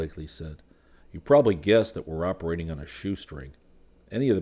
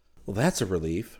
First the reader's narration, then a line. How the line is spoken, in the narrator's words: Rick murmured